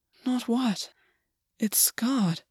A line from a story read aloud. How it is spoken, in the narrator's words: August said, his voice faint